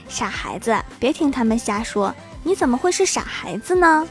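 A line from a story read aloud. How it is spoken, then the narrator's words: Gentle, motherly. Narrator (Chinese): 妈妈温柔地抚摸着郭晓霞的头说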